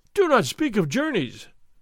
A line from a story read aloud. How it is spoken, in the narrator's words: Don Diego cried